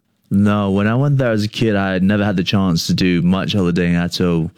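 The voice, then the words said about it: Slight Australian accent inflections. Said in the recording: “I can hear obvious inflections of the Aussie accent when you speak”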